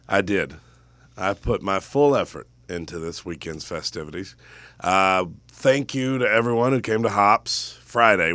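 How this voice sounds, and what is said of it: Hoarse, strained voice. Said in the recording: “You sound terrible. ... I pretty much started losing my voice Friday, actually. But then by Saturday, I could barely talk. And it's a little better today, but not much. ... I'll sound a little bit hoarse today.”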